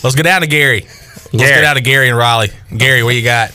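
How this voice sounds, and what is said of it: Imitates another person's voice. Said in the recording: “You do a great impression ... that does a good Gary Hahn”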